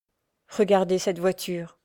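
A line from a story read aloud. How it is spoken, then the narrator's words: Trembling voice. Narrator (French): dit-elle d'une voix tremblante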